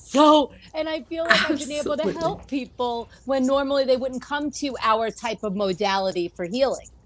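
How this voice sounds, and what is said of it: Long Island accent. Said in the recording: “that beautiful Long Island accent.”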